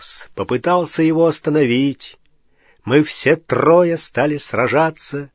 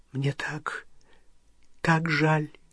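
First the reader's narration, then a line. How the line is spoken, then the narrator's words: Whispered. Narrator (Russian): прошептала Гермиона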